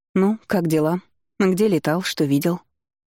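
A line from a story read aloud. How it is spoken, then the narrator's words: Almost calm question. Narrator (Russian): Уже почти спокойно спросила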